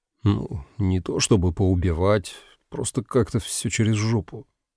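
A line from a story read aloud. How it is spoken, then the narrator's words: Quiet answer. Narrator (Russian): ответил тихо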